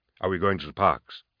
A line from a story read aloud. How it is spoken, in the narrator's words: he asked